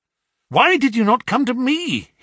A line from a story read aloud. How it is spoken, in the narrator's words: he cried